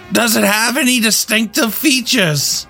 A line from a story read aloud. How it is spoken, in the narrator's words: Jimmy yelled back